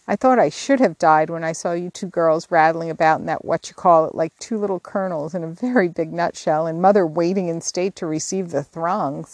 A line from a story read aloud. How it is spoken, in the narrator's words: sighed Jo, quite spent with laughter